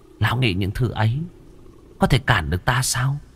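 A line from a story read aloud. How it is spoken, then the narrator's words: Scornful smiling female ghost. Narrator (Vietnamese): Nữ quỷ chỉ khẽ mỉm cười, ánh mắt khinh khỉnh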